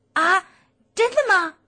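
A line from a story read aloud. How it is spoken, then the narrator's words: Little creature's happy cry. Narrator (Chinese): 小妖怪快活地叫了起来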